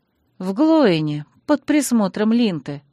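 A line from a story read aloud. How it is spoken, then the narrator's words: Grumbling, bitter exhale. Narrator (Russian): ворчливо добавила я и неожиданно для себя горько выдохнула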